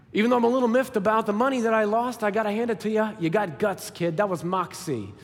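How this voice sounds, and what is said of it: Put-on Brooklyn accent. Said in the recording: “I always imagine a Brooklyn accent”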